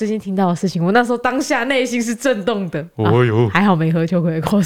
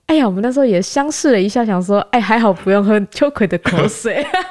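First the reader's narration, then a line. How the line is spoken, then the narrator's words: Light laugh. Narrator (Chinese): 妈就笑了一下，就跟我说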